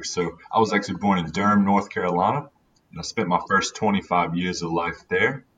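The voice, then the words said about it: American accent. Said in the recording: “you've got that American accent”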